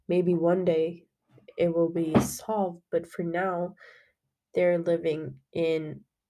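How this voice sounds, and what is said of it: Sick-sounding voice. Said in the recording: “I'm really sorry for my voice. ... I got sick during that time. So, but I think my voice is more attractive this way.”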